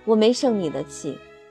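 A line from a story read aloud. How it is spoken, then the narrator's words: Smiling. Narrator (Chinese): 他带着微笑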